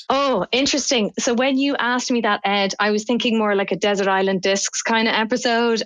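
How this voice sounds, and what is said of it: Non-North American accent. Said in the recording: “because of your accent, you know, you're obviously not out of the United States or somewhere in North America”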